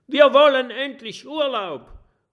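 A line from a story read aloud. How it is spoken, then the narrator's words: Calling out. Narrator (German): ruft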